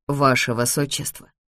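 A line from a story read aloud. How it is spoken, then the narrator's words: Indistinct mutter, head lowered. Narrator (Russian): Невнятно пробормотала она с опущенной головой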